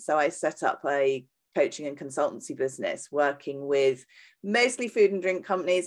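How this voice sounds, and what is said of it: British accent. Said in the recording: “you can probably tell from my accent, I'm British”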